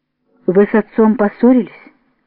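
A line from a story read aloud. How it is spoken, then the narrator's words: Stern frowning question. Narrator (Russian): Евгения Ивановна спросила строго, сдвинув брови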